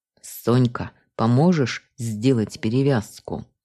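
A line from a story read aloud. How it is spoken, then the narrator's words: Through gritted teeth. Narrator (Russian): процедил сквозь зубы Уланов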